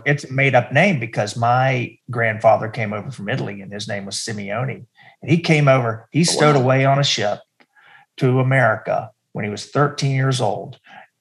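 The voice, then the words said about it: North Carolina accent. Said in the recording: “You have a great accent. ... I'm from North Carolina.”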